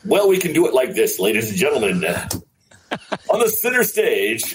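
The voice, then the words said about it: Announcer voice. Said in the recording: “You have an announcer voice?”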